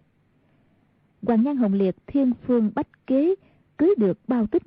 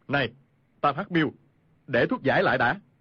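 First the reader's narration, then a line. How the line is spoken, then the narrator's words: Shouting. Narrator (Vietnamese): Khu Sử Cơ quát lên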